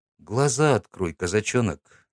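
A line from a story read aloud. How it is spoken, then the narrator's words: Quiet. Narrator (Russian): тихо сказал Никита Шунько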